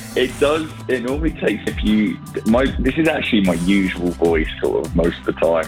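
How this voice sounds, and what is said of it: Hoarse, strained voice. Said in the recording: “Your voice is sounding a little hoarse ... I'm just in a constant state of losing my voice”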